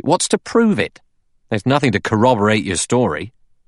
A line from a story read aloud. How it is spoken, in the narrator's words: Blore said sharply